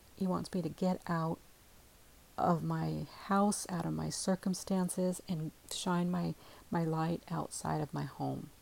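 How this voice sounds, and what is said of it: Tired-sounding voice. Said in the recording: “I sound tired. ... I am tired”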